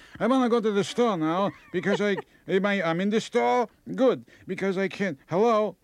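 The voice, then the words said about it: Put-on old-person Jewish accent. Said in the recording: “when they get old, no matter what religion they are, they have a Jewish accent ... they get a Jewish accent”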